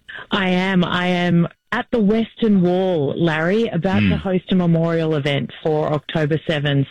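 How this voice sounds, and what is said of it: Australian accent. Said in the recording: “I can't quite pick up the accent. ... it's very distinctive ... Australia is the New Jersey of the Southern Hemisphere”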